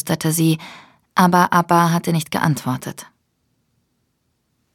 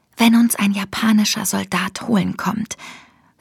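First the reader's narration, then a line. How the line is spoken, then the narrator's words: Whispered. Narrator (German): flüsterte sie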